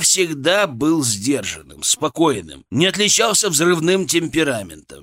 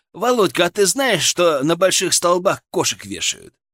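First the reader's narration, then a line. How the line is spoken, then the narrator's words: Sly, mocking. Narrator (Russian): он так ехидно прищурился и выдал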